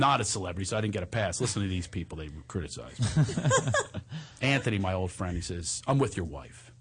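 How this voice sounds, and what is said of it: Usual voice. Nothing is said of it.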